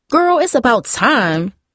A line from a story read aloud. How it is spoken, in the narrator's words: Tara exclaimed